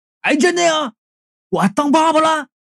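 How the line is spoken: Excited shout. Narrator (Chinese): 强子听到这话，触电一般就跳起来了，对着他老婆就喊

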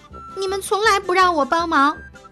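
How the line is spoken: Weeping. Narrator (Chinese): 鸭子哭哭啼啼地说

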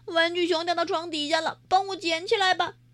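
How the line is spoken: Shouting. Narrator (Chinese): 喊

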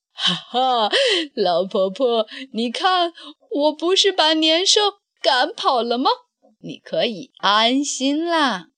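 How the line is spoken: Old man laughing. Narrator (Chinese): 老乞丐这时大笑着说

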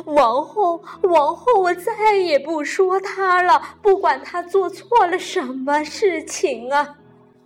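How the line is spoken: Crying. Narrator (Chinese): 驴妈妈哭着说

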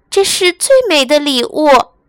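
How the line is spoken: Happy. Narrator (Chinese): 她高兴地说

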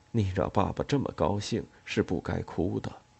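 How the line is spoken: Gentle, soft. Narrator (Chinese): 他轻柔地说

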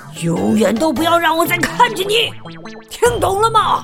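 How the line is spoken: Roaring. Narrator (Chinese): 管理员开始咆哮

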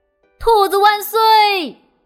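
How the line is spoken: Crowd shouting. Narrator (Chinese): 所有的动物们都高喊起来

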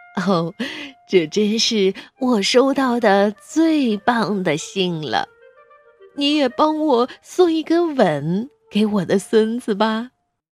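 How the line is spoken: Grandmother, laughing. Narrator (Chinese): 奶奶笑着说

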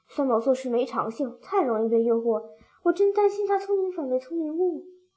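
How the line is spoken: Sighing. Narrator (Chinese): 虎皮猫 叹了一口气

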